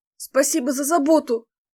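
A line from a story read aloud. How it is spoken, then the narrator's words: Hoarse, forced out. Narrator (Russian): Крипло выдавила из себя Фэй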